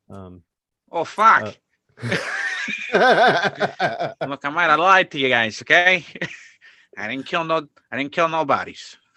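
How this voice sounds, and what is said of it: Put-on Boston accent. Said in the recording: “you have to change your accent a little bit ... A little Boston.”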